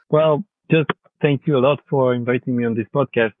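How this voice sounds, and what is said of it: Non-native, French-accented English. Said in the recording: “I hope my accent is not so bad... I would say excuse my English, but excuse my French... I think your accent will be very popular”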